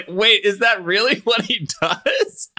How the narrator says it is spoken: I laughed so hard because I was like

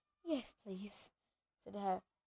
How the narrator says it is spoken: Harry panted

